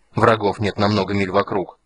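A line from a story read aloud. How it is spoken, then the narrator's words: Angry mocking imitation. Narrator (Russian): зло передразнил Стурм Гилтоноса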